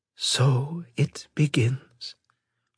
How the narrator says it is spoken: Lady Shauna whispered

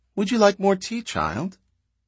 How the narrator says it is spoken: Her voice was high, too, instead of throaty, and Calia said

